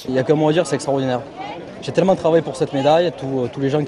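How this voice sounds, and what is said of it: Marseille French accent. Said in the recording (French): “Son accent de Marseille”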